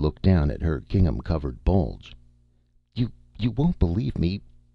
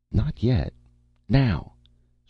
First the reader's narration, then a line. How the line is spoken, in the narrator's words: said in a strained voice